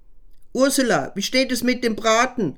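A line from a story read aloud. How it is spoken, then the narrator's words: Calling into the kitchen. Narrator (German): rief er in die Küche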